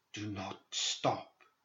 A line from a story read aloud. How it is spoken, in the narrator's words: he whispered